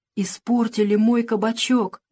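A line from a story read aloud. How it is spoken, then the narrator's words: Whispered. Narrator (Russian): прошептал он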